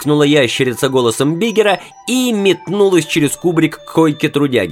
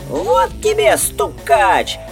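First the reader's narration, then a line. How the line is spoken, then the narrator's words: Thin squeaky voice. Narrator (Russian): Пискнул тоненький голосок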